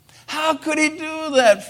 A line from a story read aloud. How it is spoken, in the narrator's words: Frenchie exclaimed